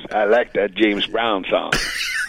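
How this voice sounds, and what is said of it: Imitates James Brown's voice. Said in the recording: “That was good. That was a good impersonation.”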